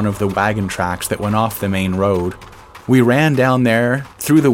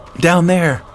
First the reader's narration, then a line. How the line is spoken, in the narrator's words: Granard shouted